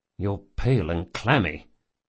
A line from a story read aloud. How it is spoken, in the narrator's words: he muttered